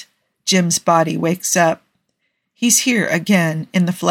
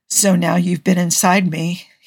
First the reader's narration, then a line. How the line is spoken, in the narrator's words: says, the first words rasping because it's been so long since either of them has spoken